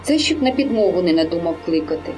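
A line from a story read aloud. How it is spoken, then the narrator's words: Calm. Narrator (Ukrainian): сказала спокійно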